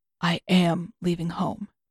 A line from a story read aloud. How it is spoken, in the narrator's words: he adds, his voice both softer and firmer than before